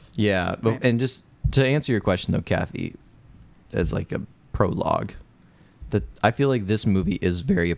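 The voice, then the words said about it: Slightly rough, hoarse voice. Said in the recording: “you sound a little rough, buddy ... If my voice sounds a little hoarse, you know, I might have been wailing away”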